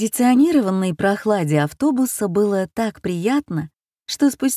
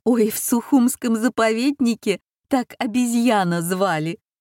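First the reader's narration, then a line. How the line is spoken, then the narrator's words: Giggling woman. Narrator (Russian): хихикнула с заднего сиденья дамочка из Витебска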